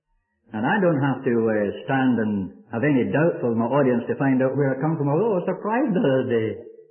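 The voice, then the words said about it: Scottish accent. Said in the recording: “You know the Scotch have wrong accent. Well, my father had it. You can't blame me for that.”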